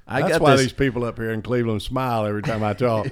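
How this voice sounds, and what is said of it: Southern American accent. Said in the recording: “I wish I had a Southern accent... Do I have a Southern accent? Yes, you do.”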